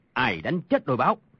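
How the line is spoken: Angry. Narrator (Vietnamese): Tàn Cồn tức giận nói

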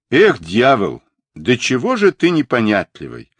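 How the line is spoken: Displeased tone. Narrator (Russian): недовольным тоном проговорил Сунь-Укун

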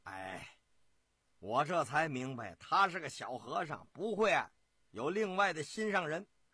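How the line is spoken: Laughing older man. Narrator (Chinese): 舅爷张天佑笑

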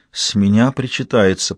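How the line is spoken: Whisper. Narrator (Russian): прошептала девушка

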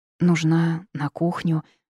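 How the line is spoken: Breathed out, overwhelmed. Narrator (Russian): выдохнула, понимая, что одна могу просто не справиться

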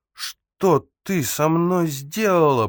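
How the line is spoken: Groaning. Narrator (Russian): простонал

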